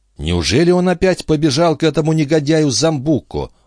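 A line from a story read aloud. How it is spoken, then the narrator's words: Exclamation. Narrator (Russian): воскликнул Жюэль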